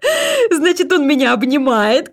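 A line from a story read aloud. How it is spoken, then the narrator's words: Laughing. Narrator (Russian): Катерина рассмеялась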